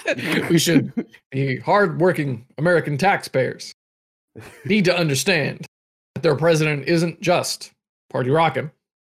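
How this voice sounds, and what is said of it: Obama impression, measured important intonation. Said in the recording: “I don't think my Obama impression is very good ... it's just that intonation, that sort of measured and important speaking”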